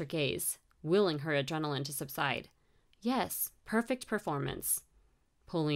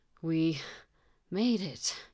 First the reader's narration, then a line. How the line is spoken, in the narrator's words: he panted